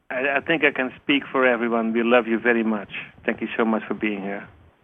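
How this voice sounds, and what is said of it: Dutch accent. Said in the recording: “it's that wonderful Dutch accent.”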